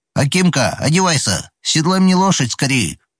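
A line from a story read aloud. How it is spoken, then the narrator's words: Shout. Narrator (Russian): крикнул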